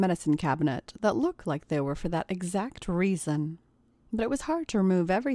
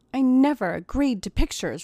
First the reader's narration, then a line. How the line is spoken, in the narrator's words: replied Tracy angrily